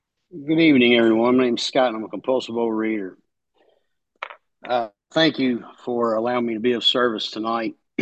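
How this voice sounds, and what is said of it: Kentucky accent. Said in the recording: “The accent, I'm from Kentucky.”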